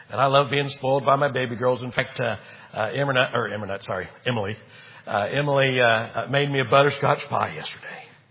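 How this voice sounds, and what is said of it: Hoarse voice. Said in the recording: “I've been under the weather. That's why I'm sounding a little hoarse tonight.”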